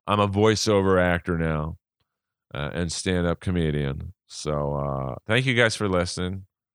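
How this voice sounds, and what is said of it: Monotone drawl. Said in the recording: “my monotone drawl”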